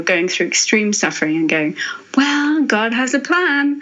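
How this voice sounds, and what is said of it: Slightly American accent. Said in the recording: “I say that in a slightly American accent.”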